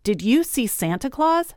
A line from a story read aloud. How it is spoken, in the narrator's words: she shouted